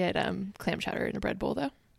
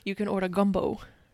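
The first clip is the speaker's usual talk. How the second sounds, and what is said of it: Good New Orleans accent. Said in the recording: “That was a really good New Orleans accent.”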